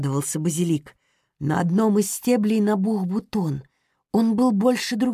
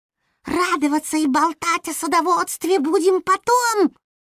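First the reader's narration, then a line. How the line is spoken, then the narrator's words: Sharp rebuke. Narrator (Russian): прикрикнул Топинат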